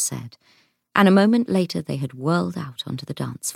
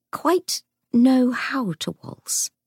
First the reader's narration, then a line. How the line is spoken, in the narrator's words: she faltered, having no idea what she was saying